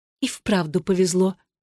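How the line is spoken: Whisper. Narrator (Russian): прошептала Татьяна

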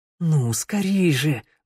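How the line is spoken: Pleading. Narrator (Russian): взмолился Теодор

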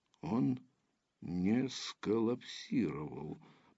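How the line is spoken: Disappointed mutter. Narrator (Russian): пробормотал Ландсберг с разочарованием

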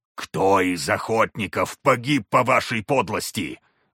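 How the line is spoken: Sudden roar. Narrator (Russian): взревел вдруг Гравий

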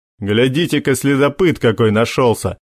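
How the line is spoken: Mocking. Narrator (Russian): насмешливо проговорил тот самый воспитанный Ромео

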